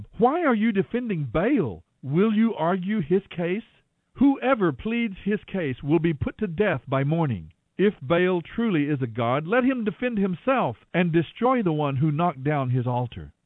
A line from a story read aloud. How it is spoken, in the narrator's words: Joash shouted to the mob